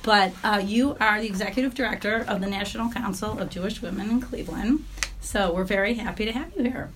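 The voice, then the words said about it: Raspy, hoarse voice. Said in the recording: “excuse my voice. I'm a little raspy today. I think it's a little laryngitis.”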